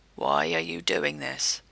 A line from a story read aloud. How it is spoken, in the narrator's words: Jared growled